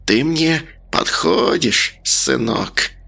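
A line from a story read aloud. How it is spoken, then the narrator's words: Hiss. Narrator (Russian): прошипела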